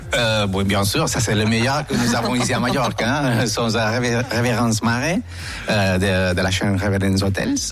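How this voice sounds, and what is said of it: Spanish accent in French. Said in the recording (French): “Avec un bel accent espagnol ... Quel plaisir d'entendre cet accent.”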